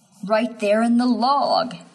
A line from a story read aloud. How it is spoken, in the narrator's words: he whimpers